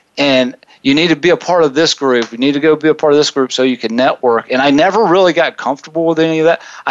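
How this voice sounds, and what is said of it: Southern American accent. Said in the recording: “I'm a jock with a southern accent”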